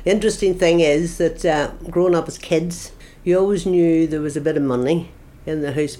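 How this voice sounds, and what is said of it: Flat regional accent. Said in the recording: “Anyone I've met, say they love the accent, I personally think it's awful. I think it's very flat.”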